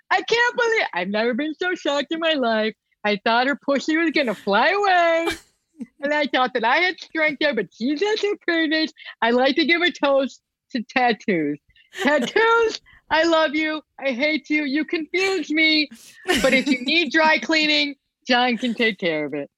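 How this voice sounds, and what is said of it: Imitates another person's voice. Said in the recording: “doing an imitation.”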